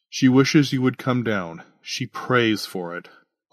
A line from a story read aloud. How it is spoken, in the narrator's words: Augustine sighed